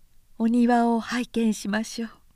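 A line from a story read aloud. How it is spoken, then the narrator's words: Plain. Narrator (Japanese): と言い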